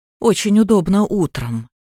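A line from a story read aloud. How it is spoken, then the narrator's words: Calm. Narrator (Russian): спокойно продолжала Алиса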